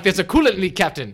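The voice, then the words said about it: Impression of a Star Trek character. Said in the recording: “That's my Geordi LaForge impersonation.”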